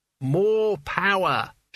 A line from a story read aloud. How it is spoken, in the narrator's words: shouted Albert